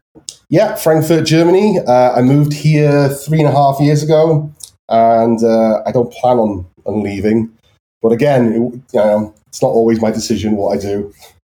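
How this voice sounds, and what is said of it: Anglicized North Welsh accent. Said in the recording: “there's North Wales and there's South Wales... where I am in North Wales, it's, like, on the border to England. So we have a very anglicized Welsh accent.”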